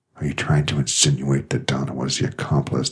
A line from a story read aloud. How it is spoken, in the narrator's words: he said through his teeth